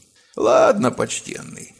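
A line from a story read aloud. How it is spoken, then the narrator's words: Reluctant mutter. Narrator (Russian): нехотя пробурчал он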